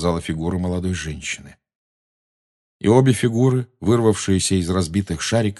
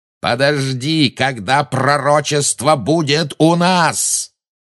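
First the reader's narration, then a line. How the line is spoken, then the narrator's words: Roar. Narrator (Russian): взревел Малфой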